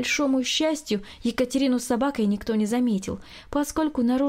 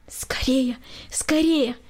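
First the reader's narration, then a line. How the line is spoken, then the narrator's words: Quiet urgent whisper. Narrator (Russian): тихо шептала Екатерина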